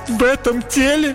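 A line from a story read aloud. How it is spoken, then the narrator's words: Sobbing princess. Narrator (Russian): Принцесса всхлипнула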